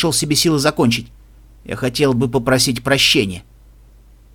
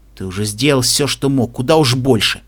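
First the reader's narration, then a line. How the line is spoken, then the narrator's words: Grumbling. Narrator (Russian): буркнул Агилар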